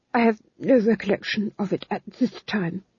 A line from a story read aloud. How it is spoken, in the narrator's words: murmured